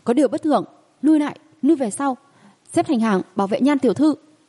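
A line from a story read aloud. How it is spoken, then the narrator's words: Panicked urgent shout. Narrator (Vietnamese): An Nghệ trong lòng hoảng hốt ... liền vội vàng ... la lên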